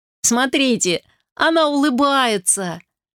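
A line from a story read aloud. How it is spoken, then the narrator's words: Laughing. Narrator (Russian): рассмеялся Вилли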